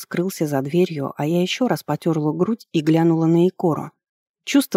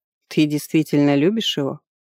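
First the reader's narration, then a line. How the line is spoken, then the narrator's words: Surprised, mocking question. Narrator (Russian): спросила вдруг удивленно и одновременно насмешливо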